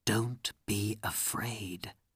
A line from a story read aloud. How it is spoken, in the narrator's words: Aladdin said quietly to his wife